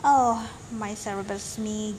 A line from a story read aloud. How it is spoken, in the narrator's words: groaned the pirate